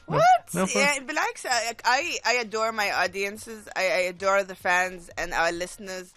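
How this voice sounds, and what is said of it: Omani accent. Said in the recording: “you don't try to force the American accent and you keep your OG Omani accent”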